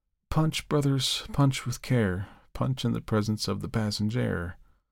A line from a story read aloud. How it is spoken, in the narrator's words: drew a deep sigh, and said, without animation, without apparent consciousness